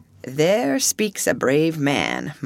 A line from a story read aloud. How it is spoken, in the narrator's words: murmured Mr